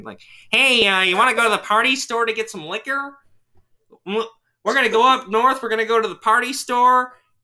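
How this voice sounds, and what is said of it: Exaggerated stereotypical Michigan accent. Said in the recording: “it's a stereotypical Michigan accent ... This is me impersonating somebody from Michigan”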